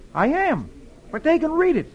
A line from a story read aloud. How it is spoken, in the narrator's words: Dick replies cheerfully